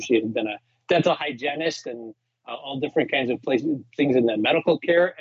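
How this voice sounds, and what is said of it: Slight Chicago accent. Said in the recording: “I'm hearing some of the Chicago now ... Chicago accent.”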